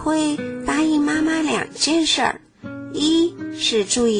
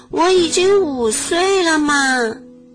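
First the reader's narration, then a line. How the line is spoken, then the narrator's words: Loud. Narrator (Chinese): 小慧大声地说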